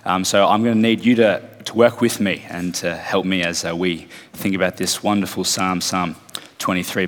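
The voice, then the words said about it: Croaky voice. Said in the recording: “Caught a cold the last few days, so my voice is a bit croaky today.”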